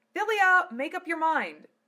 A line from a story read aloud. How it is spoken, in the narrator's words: Lena shouted